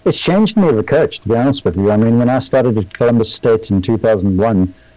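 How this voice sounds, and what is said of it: South African accent. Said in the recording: “the South African accent doesn't hurt”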